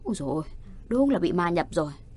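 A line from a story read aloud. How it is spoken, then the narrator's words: Frightened mutter. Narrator (Vietnamese): Người đó sợ quá đờ ra, lẩm bẩm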